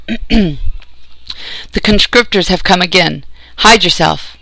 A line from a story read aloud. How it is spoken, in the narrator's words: As he ran past, he called out